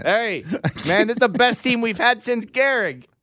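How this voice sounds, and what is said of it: Put-on New York accent. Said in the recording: “New York radio... New York accent”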